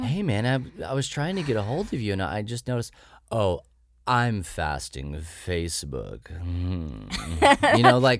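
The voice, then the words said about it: Smarmy, evil-sounding imitated voice. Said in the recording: “Just smarmy ... your impression ... That one sounded kind of evil.”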